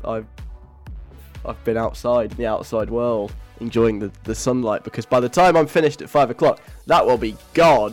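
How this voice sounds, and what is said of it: Breathless, panting speech. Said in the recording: “I'm really out of breath. ... I'm a bit tired.”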